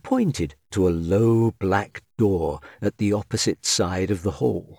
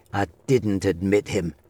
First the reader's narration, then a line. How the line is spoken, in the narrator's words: grumbled the old man